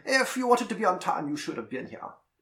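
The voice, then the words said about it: Poor put-on German accent. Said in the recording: “The Germans ... I'm gonna do my shitty accent ... hung up on your accent”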